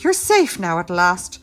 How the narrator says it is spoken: panted

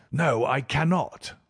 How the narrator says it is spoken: I answered sharply

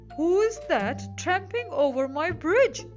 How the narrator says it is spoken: roared the troll

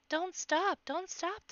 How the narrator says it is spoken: the rabbits cried

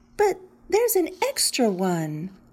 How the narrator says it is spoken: exclaimed, counting carefully

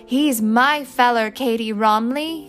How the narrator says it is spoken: screamed

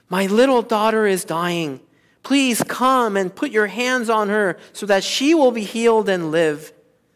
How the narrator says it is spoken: He pleaded earnestly with him

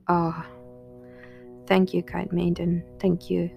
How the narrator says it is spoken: sighed the wolf

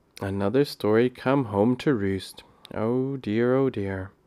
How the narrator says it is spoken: she would sigh and say

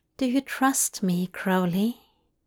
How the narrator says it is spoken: Zira asked softly

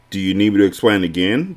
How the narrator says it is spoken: the doctor asked

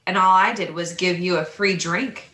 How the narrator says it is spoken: he chuckled

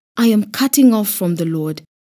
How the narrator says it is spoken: In panic, I cried out

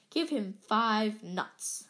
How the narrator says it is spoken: said Hagrid sleepily

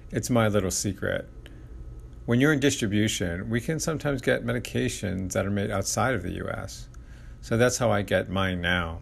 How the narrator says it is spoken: laughed

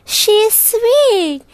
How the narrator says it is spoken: gasped

